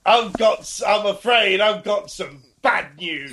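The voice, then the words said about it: Lancashire accent with posh touch. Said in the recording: “it's the accent, isn't it? And his voice ... That Lancashire accent, or whatever it is. I think it's Lancashire, but sprinkled with a bit of poshness ... It's very good.”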